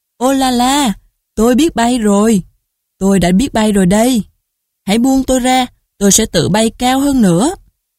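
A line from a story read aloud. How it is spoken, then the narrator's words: Loud cry. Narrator (Vietnamese): Nó lớn tiếng kêu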